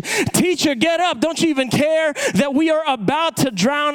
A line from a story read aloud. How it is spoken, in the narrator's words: all of a sudden, you got these dudes just shouting at you